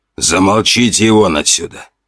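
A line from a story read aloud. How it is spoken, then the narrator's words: Old man's growl. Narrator (Russian): рыкнул на них один из стариков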